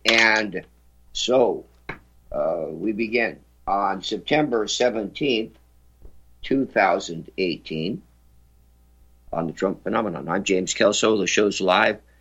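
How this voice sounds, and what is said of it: Hoarse, slightly lower voice. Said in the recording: “I sound a little bit hoarse... My voice is a little lower tonight”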